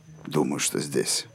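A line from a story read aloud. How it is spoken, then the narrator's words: Muttering. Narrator (Russian): пробормотал Роланд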